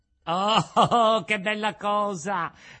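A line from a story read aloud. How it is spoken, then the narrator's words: Joyful shout. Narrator (Italian): gridò Pinocchio, saltando dall'allegrezza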